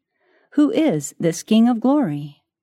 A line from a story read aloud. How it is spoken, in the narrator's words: The angel sentinels at the gate exclaimed